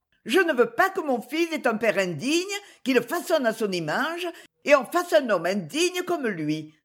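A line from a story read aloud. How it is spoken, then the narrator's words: Exclaiming. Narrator (French): s'écria Marichette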